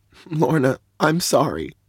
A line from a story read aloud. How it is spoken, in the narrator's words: I said, my voice beginning to crack